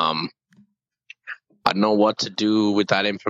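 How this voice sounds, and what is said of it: Usual voice. Nothing is said of it.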